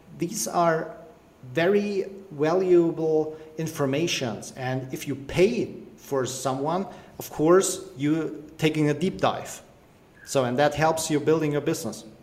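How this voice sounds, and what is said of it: German accent. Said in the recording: “I love how you say value. It reminds me of Star Trek. ... maybe it's a German accent.”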